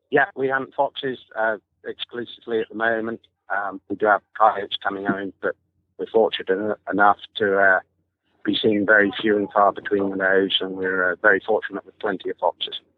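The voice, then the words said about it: Maryland Eastern Shore accent. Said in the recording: “with that accent, you obviously grew up in Maryland ... Eastern Shore boy ... Sounded like it”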